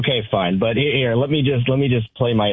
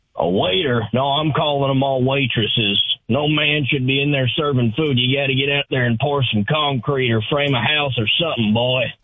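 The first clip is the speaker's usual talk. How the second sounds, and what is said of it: Gruff old man character voice. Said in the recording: “my old man impression.”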